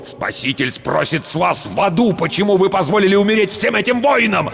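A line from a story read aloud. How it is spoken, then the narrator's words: Impatient barking. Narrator (Russian): рявкнул потерявший терпение Рауль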